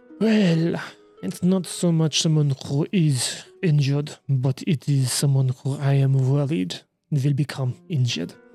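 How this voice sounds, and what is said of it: Very strong put-on accent. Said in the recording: “your accents here are very strong”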